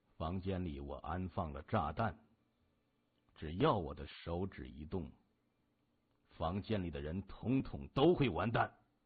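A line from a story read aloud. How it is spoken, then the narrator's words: Leisurely, calm. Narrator (Chinese): 他悠然地说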